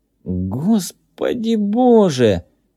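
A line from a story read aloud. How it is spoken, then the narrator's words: Strangled exclamation. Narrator (Russian): воскликнул кто-то сдавленным голосом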